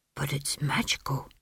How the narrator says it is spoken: he whispered

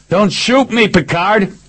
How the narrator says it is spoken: yelled

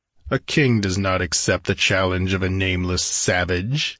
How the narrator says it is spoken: he sneered

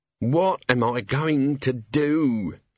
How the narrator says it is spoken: moaned

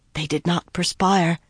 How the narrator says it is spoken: Berowyn whispered at her shoulder

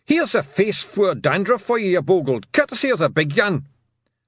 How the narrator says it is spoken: Tiffany heard the man shout

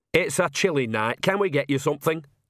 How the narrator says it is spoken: said Nanny cheerfully

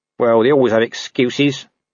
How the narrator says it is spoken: said Nobby sullenly

